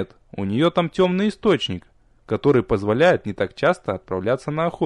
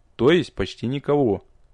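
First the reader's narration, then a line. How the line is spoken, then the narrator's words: Calm. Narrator (Russian): спокойно заключил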